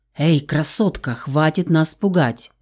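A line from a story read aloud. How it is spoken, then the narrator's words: Mutter. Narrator (Russian): пробормотал он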